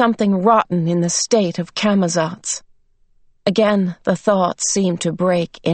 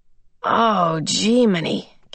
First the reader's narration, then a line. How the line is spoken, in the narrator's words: Calvin mumbled